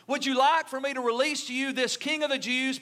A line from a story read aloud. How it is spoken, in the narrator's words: Pilate asked